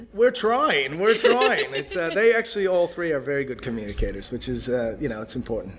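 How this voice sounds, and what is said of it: American accent with Australian touches. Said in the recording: “my accent's sort of in this middle zone between, between, you know, being... ... they think I sound Australian ... you sound American up to a point, and then you throw in one word or one sentence that's really Australian”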